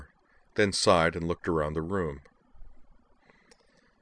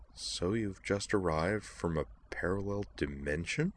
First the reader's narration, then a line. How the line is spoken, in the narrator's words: murmured